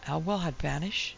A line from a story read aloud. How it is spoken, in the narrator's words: Parvis faltered